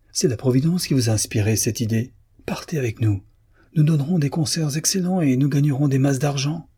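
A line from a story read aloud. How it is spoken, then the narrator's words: Elated exclamation. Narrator (French): s'écria Démiane transporté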